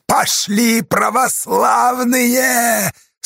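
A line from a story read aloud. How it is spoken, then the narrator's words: Terrible roar. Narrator (Russian): Страшно взревел он на бурлаков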